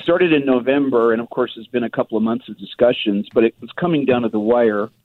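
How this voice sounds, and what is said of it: Congested voice from a cold. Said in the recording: “I've got a cold this morning.”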